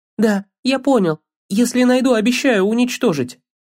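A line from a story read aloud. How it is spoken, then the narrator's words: Frightened shout. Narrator (Russian): испуганно крикнул Атрей в ответ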